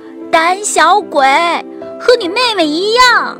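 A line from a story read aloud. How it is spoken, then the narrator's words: Shouting. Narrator (Chinese): 塔菲嚷道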